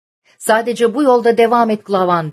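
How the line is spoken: Shouting. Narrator (Turkish): diye bağırıyordu

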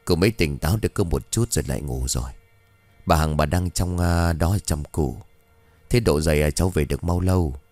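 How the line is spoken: Hesitant mumbling. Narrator (Vietnamese): Ông Lâm ậm ừ bảo

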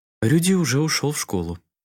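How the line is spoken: Serene woman on phone. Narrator (Russian): безмятежным голосом ответила женщина на том конце провода

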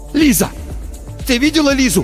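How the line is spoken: Shouted. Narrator (Russian): закричал Тихон

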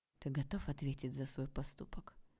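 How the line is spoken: Male whisper. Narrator (Russian): спросил мужской шепот

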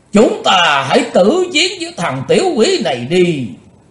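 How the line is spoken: Crowd shouting in unison. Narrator (Vietnamese): Cả bọn ngũ đại phái đồng thanh kêu lên

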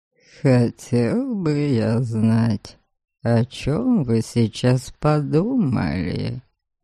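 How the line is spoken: Purring. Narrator (Russian): Мурлыкнул Норберг

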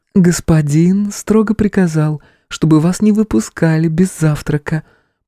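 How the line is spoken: Enchanting sing-song voice. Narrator (Russian): пропела она чарующим голосом

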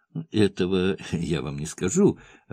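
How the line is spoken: Laughing. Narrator (Russian): рассмеялся

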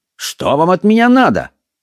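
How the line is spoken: Defiant shout. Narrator (Russian): Ирландец с вызовом крикнул

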